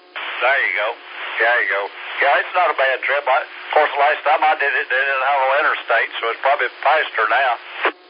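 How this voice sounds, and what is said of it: Familiar regional accent. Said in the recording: “I thought I recognized something in his accent. It sounded familiar.”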